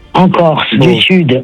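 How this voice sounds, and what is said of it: Slight southern French accent. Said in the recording (French): “t'as un petit accent du sud”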